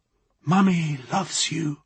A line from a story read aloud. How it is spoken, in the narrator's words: she whispered again